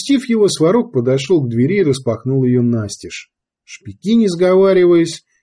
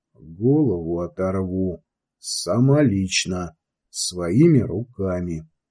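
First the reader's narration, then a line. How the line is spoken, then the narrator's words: Quiet choking fury. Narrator (Russian): Задохнувшись от бессильной злобы, Сварог тихо пообещал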